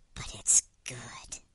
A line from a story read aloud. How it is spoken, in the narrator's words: whispered